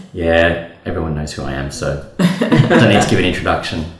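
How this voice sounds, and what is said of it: Australian accent. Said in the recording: “The Australian accent's a dead giveaway.”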